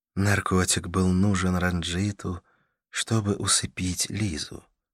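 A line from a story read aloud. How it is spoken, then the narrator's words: Overly soft question. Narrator (Russian): спросила Карла слишком, на мой взгляд, мягким тоном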